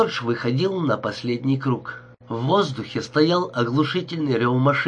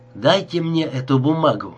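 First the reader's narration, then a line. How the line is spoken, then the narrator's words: Plain. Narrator (Russian): сказала она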